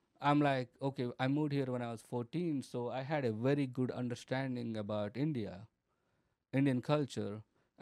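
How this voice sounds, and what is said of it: Noticeable foreign accent. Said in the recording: “my accent, there are people that say my accent is what is making me funny”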